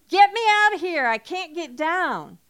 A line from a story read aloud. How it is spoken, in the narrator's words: was yelling from inside the elevated structure